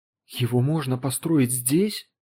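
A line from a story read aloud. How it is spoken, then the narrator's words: Strained whisper. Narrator (Russian): с трудом прошептал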